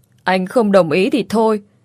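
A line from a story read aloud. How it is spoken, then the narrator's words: Fake wailing, crying while speaking. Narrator (Vietnamese): giả vờ gào lên khóc lóc, vừa khóc vừa nói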